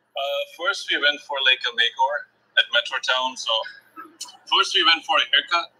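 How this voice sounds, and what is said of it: Indian English accent. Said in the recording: “Indian guy. Listen to his accent first ... You can tell ... he's from India.”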